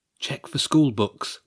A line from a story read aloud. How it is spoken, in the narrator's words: Wilf whispered